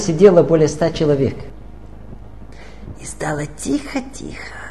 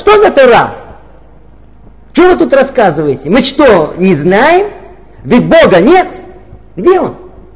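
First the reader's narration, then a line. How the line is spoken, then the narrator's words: Loud, angry woman shouting. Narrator (Russian): одна женщина и громким голосом, знаете, так рассерженно прокричала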